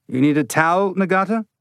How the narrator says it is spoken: Mose said

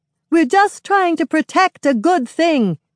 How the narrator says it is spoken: A girl called Trillium shouts

